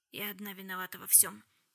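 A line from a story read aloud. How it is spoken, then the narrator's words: Quiet. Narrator (Russian): тихо сказала Шарлотта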